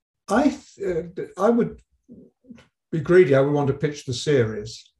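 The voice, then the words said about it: English accent. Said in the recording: “He's got an English accent ... except for my accent”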